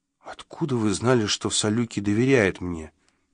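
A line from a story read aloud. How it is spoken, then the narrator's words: Very quiet question. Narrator (Russian): тихо-тихо спросил я у хозяина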